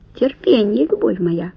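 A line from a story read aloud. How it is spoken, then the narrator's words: Whisper. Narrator (Russian): шепнул он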